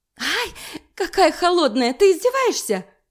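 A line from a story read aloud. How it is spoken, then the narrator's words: Owl's shriek. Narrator (Russian): вопит сова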